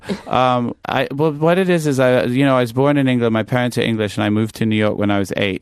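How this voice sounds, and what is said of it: Mixed English and American accent. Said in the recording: “what is this Kelly Osbourne on Sudafed? ... why do you sound weird? ... why do you sound so American?”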